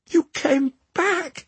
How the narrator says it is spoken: Hilde cried, overjoyed

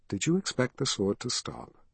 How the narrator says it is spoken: she asked in a low voice

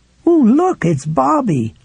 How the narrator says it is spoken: cried

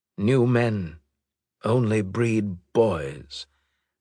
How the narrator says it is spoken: Bishop said in a hollow voice

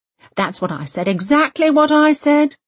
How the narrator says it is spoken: Britt Marie calls out eagerly

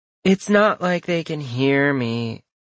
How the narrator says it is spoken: Junior drawled

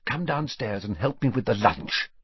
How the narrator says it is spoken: she whispered

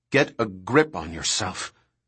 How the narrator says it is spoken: Harding said coldly

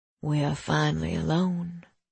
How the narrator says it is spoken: he murmured in my ear

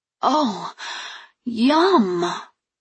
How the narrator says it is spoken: I exclaimed as I chewed

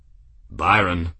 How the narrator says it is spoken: said Grimm, in a gentle, firm tone

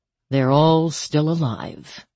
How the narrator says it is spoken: she said dryly

